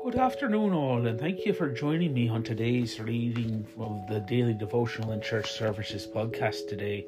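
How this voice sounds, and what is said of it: Funny put-on Irish-style accent. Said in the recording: “affecting a funny accent ... St. Patrick's Day”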